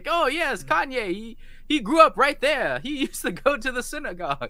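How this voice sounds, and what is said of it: Put-on Jewish accent. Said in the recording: “your Jewish accent? ... that's my Jewish accent.”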